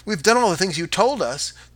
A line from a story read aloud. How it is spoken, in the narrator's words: the children cried again